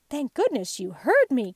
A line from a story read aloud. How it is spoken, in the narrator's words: gasped Saggy Baggy Elephant